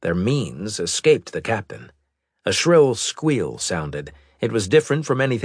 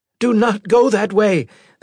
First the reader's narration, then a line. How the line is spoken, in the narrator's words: the android shouted